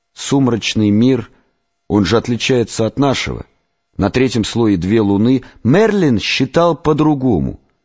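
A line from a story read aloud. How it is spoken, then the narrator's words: Plain. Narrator (Russian): сказал Рустам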